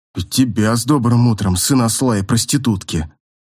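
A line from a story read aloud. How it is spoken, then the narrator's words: Grumble. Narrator (Russian): буркнул Ронг, нехотя отрывая голову от подушки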